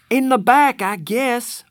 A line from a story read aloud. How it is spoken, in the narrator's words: I hollered